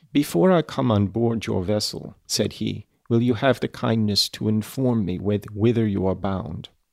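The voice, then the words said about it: Vaguely German-accented Frankenstein voice. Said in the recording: “although with a foreign accent ... I'm giving him a kind of vaguely Germanish thing because that's all I'm capable of doing”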